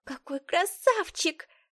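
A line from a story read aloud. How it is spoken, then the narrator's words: Squeaked. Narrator (Russian): пропищала Элла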